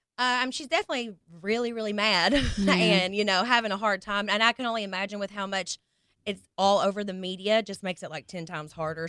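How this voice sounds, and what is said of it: Kentucky accent. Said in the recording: “you couldn't do no wrong with that accent. ... That Kentucky accent.”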